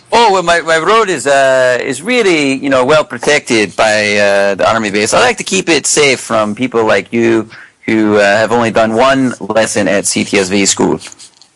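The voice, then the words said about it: Decent put-on Scottish accent. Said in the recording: “are you Shrek? ... that wasn't a bad Scottish accent.”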